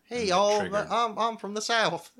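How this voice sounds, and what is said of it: Put-on Southern US accent. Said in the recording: “Is this a Southern accent? Oh, there's kind of Southern there, a little bit from somewhere in the South.”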